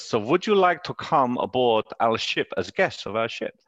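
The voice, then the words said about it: Put-on German accent. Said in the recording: “I'm not going to try and do a German accent, but I'm obviously am ... So I don't know if that was a German accent”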